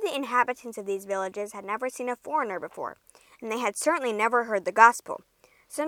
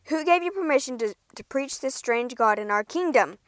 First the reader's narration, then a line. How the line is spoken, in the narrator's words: the officer bellowed